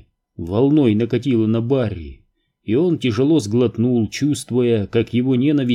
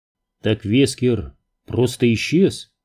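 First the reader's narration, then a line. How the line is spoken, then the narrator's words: Plain. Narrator (Russian): спросил Крис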